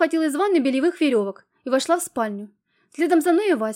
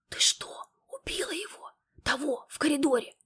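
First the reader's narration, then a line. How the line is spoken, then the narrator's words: Whispered question. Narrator (Russian): шепотом спросил он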